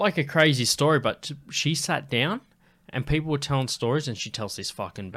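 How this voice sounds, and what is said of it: Usual voice. Nothing is said of it.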